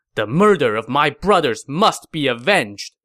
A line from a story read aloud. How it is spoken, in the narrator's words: said angrily